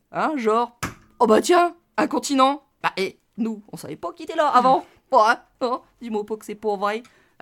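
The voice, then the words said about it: Put-on local accent. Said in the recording (French): “Avec un bon vieux accent d'ici. ... Voilà, ouais, ça je le fais bien.”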